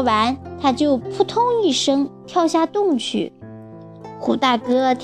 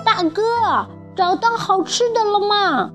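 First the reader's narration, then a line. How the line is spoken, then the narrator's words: Echoing in a well. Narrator (Chinese): 声音在井里回荡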